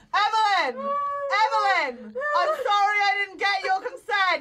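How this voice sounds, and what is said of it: Yelling. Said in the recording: “Why are you yelling at me? ... you're yelling at me.”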